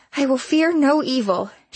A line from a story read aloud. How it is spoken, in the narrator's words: she shouted